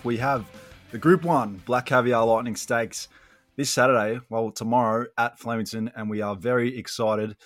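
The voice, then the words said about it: Raspy voice. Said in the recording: “I might sound a bit raspy”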